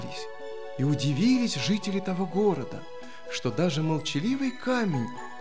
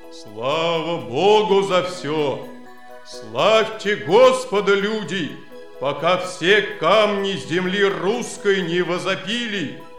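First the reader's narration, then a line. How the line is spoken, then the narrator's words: Stone exclaiming in human voice. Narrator (Russian): ударился камень о землю, и воскликнул он человеческим голосом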